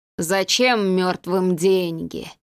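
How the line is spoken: Moaning drowned man. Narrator (Russian): простонал утопленник

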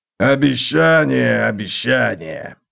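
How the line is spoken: Grumbled. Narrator (Russian): проворчал Готрек

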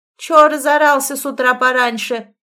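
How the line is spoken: Harsh bark. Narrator (Russian): рявкнула она

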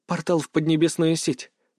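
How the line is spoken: Whisper. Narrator (Russian): прошептала Илона

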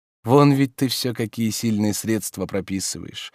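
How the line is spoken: Glum remark. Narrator (Russian): заметил Обломов уныло

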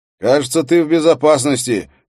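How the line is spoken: Shout toward another room. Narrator (Russian): крикнул он в направлении кухни

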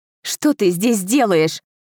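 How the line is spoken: Angry, emotional retort. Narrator (Russian): Зло бросила я ему, не в силах сдержать эмоции

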